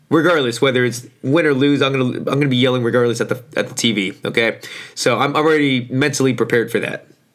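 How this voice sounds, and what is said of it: Hoarse, strained voice. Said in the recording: “my voice is a little shot ... My voice is already pretty shitty right now.”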